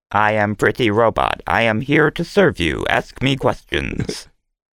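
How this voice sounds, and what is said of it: Robotic character voice. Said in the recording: “do the arms have to move like that when you ... do the voice? ... is actually doing the robot.”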